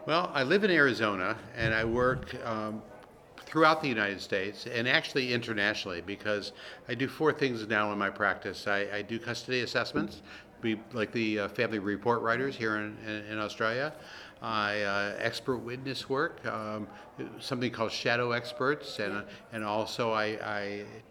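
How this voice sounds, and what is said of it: American accent. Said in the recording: “I guess that by your accent ... from the United States”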